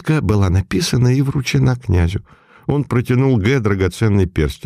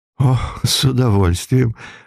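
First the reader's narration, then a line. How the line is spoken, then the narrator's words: Laughing. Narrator (Russian): рассмеялся ювелир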